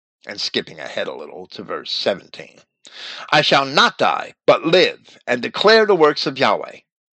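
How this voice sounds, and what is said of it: Dry, raspy voice. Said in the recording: “my throat is very dry and raspy today”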